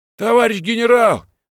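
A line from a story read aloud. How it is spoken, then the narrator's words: Shout. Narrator (Russian): закричал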